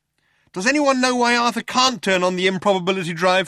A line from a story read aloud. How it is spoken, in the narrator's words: shouted Trillian